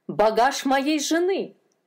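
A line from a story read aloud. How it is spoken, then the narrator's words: Shouting. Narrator (Russian): закричал он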